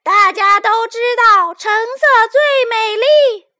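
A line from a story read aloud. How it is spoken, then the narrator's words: Loud cracked singing. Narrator (Chinese): 橙色的嗓门比红色还大，他用他的破锣嗓子大声唱道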